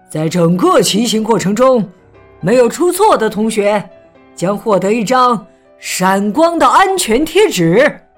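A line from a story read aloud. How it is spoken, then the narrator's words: Loud announcement. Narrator (Chinese): 大声宣布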